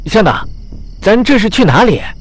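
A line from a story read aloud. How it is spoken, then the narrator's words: Sudden shout. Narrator (Chinese): 吴子山突然叫道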